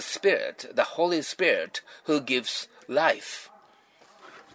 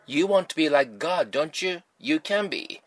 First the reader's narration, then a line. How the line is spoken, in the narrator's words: the Satan said